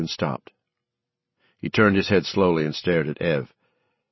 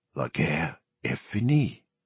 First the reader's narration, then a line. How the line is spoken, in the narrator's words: he whispered